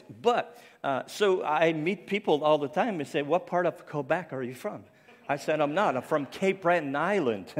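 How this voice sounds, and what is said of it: Speech that sounds French-accented. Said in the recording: “he sounds French. He sounds like he has a French accent. But I don't. It's the stroke that left me with this voice.”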